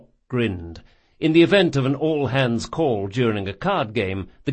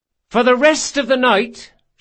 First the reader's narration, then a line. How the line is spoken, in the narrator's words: she shouted